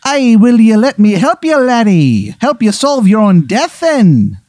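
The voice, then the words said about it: Awful put-on Irish accent. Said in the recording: “his accent is awful ... inexcusable ... Bad. It's really bad. Very bad.”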